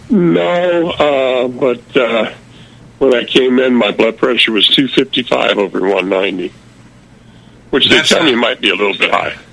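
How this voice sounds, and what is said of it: Unwell, weak-sounding voice. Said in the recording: “you sound terrible”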